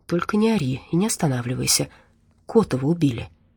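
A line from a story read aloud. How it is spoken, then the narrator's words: Spoken quietly. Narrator (Russian): тихо произнес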